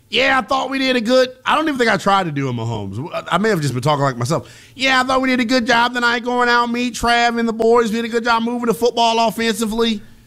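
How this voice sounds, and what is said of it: Imitates another person's voice. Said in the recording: “It's a terrible Mahomes.”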